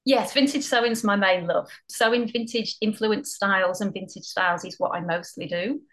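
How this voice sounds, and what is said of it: Mild Northwest English accent. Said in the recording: “I'm originally from the northwest of England ... I don't think the accent's as strong as it used to be.”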